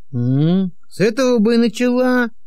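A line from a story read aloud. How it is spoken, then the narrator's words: Grumbling mutter. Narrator (Russian): пробурчал Григорий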